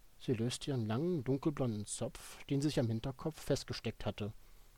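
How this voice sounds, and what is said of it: Usual voice. Nothing is said of it.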